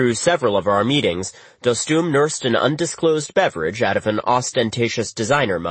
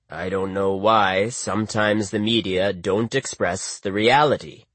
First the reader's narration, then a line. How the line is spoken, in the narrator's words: Dostum was grumbling